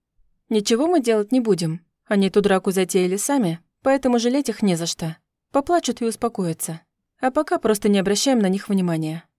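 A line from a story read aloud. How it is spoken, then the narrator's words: Calm answer. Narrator (Russian): спокойно ответила я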